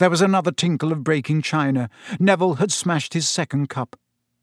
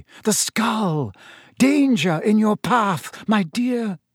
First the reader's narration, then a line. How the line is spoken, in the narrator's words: screamed